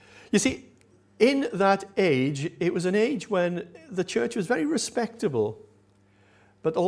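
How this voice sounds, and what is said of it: Usual voice. Nothing is said of it.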